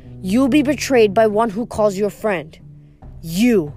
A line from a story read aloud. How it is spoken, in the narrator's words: I said